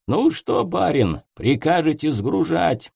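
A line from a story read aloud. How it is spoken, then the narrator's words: Hoarse-voiced inquiry. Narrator (Russian): Хриплым голосом осведомился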